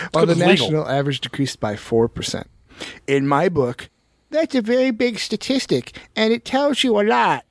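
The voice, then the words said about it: Near spot-on impersonation. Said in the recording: “that was almost a spot-on impersonation”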